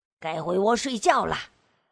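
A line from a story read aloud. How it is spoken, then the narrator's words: Old man calling out. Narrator (Chinese): 派老头冲着母鸡们喊着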